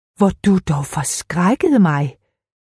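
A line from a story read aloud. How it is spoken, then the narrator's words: Exclaiming. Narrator (Danish): udbrød hun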